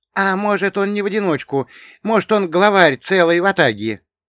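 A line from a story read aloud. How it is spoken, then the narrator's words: Gleefully frightened guess. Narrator (Russian): радостно пугаясь, предположил Тюря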